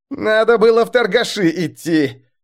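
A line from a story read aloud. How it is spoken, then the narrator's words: Wailing. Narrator (Russian): взвыл Чито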